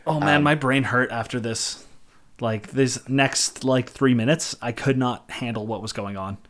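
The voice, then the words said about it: Hoarse, partly lost voice. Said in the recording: “My voice is still kind of gone right now. If I try to do anything high-pitched, my voice just cracks.”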